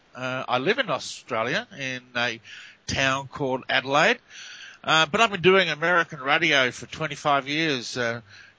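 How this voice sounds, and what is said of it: Australian accent. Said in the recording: “As you can tell by the accent, I'm Australian.”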